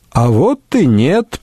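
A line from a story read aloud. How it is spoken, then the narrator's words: Cheerful, smiling. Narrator (Russian): проговорил Рейнован, уже некоторое время радостно улыбавшийся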